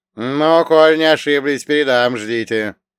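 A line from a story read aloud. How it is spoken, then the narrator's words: Displeased grumble. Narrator (Russian): Недовольно пробурчал голос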